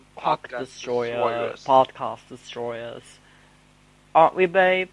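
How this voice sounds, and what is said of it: Put-on British accent. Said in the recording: “I am going to speak in British accent throughout this whole video.”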